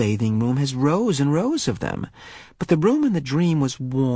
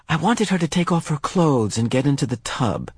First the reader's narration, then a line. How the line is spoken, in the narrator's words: he explained quickly